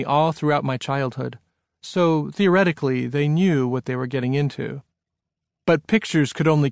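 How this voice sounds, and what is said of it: Usual voice. Nothing is said of it.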